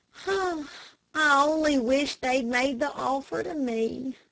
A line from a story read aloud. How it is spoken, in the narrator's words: said Dick with a sigh